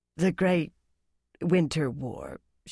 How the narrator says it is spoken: she said huskily

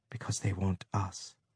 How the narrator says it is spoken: she said softly

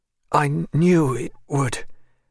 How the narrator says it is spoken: she said, in a strange tone, as if she were gasping for breath

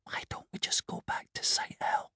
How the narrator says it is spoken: Catherine would whisper

